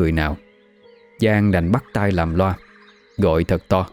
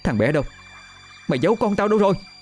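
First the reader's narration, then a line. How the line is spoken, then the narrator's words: Frantic shout. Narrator (Vietnamese): Giang không chần chừ hét lớn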